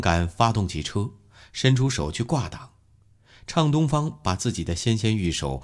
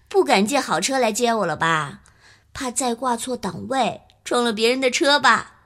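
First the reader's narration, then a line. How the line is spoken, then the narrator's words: Laughing. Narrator (Chinese): 畅东方笑了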